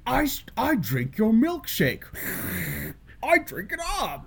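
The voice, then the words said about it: Good impression of a movie character. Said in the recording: “That was a pretty good impression.”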